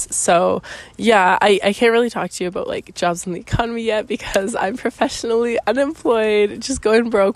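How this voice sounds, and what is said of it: Hoarse, fading voice. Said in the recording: “I don't know if you can hear it in my voice. I'm losing my voice.”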